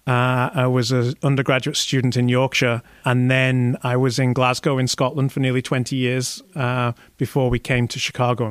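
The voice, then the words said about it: Northern English accent. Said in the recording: “they'll recognize I'm from the UK ... my accent is northern rather than southern”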